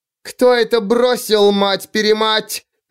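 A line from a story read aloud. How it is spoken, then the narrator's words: Yelling woman judge. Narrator (Russian): завопила судья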